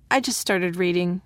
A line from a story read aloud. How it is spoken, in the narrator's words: Aiden said